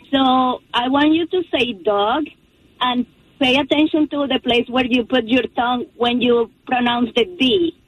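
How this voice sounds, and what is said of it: Speaker with a noticeable accent. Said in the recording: “Ooh, I love the accent.”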